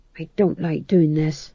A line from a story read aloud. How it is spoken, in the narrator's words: he murmured under his breath